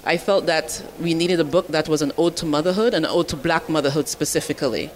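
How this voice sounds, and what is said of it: Caribbean accent. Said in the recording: “you have an accent ... I am Caribbean ... I'm from Dominica and Barbados”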